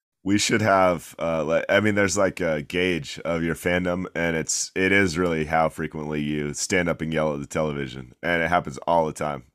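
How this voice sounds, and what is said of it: Hoarse, croaky sick-sounding voice. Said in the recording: “I'm a little under the weather, so apologies to the listeners if my voice sounds like frog-like.”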